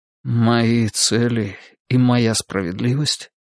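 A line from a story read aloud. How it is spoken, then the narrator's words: Muffled objection. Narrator (Russian): глухо возразил Олег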